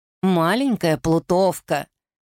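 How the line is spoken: Grumbling. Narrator (Russian): Она всегда ворчала на своих детей

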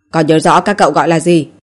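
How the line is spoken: Grave cold question. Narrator (Vietnamese): Vẻ mặt nguyên soái nghiêm trọng, lạnh lùng hỏi

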